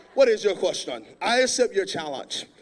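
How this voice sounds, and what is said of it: Put-on Bahamian-style accent. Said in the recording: “He got like this accent. He's from the Bahamas ... kind of sound like Black Panther from Wakanda”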